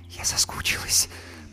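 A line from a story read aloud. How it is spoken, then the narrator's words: Whisper. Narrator (Russian): прошептала Юлька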